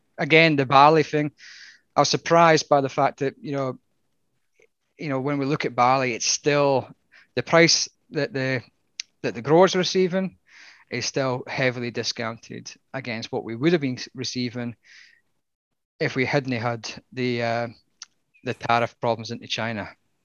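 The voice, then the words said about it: Australian attempting Scottish accent. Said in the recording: “It just sounds like a person from Australia trying to put on a Scottish accent.”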